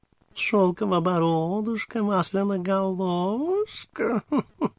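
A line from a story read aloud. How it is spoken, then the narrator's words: Cooing. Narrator (Russian): проворковала нимфа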